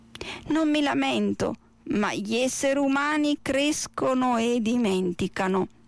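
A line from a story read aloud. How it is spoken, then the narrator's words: Sighing. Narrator (Italian): sospirò la tartaruga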